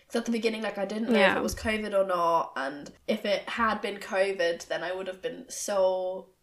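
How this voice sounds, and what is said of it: Voice sounds ill. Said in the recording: “it could be a little bit apparent from the way that I'm speaking ... hear it in my voice, ... I've been feeling ill since Thursday”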